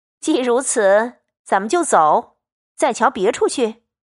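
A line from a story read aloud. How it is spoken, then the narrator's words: Laughing. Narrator (Chinese): 凤姐 笑道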